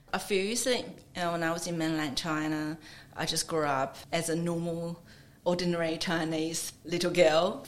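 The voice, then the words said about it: Chinese-accented English. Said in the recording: “my accent is even stronger than I'm having now”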